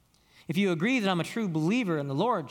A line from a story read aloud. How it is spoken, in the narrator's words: she said